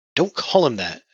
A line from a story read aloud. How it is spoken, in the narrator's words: Abby snapped